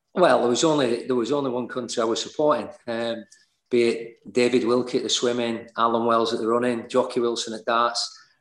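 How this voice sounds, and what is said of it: Leeds English accent. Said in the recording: “you're born in Leeds, hence the accent”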